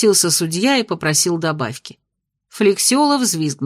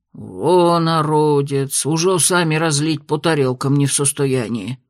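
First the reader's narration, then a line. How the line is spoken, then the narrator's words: Grumbling. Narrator (Russian): Проворчал сычник Адимыч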